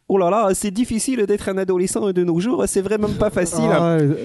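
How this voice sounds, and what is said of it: Bad put-on Belgian accent. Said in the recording (French): “pas très bon en accent ... C'était un accent belge ... c'est un accent ridicule”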